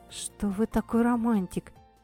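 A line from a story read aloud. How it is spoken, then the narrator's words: Barely audible. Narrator (Russian): еле слышно закончила фразу я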